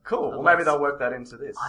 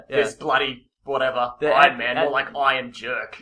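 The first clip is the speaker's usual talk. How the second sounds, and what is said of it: Put-on New York accent. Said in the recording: “That's my New York accent.”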